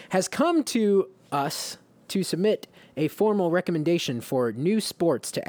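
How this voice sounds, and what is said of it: Usual voice. Nothing is said of it.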